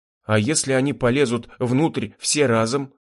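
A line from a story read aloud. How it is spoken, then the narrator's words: Muttering. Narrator (Russian): пробормотал Юрген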